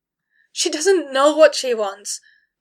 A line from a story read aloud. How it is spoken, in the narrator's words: Kaelin shouted